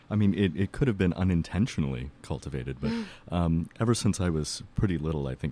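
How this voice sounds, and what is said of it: Deep radio voice. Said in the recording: “you do have a radio voice, definitely. Much, much better than mine ... a little bit deeper than normal voice”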